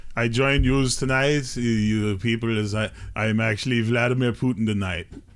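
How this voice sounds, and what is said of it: Poor Russian accent Vladimir Putin impression. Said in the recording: “My Russian accent ... Not British Vladimir Putin? ... that was the worst Vladimir Putin ever”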